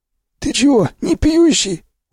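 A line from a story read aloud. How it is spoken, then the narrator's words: Surprised, hoarse voice. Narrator (Russian): удивился сиплый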